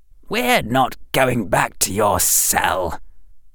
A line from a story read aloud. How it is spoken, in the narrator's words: hissed Harry's voice on automatic